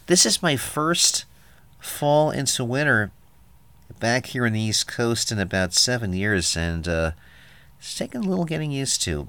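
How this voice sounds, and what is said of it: Congested, sniffly cold voice. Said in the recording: “if I sound like I have a cold ... My nose is kind of doing the sniffly thing”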